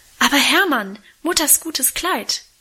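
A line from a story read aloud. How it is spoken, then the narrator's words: Horrified cry. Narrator (German): rief Minchen entsetzt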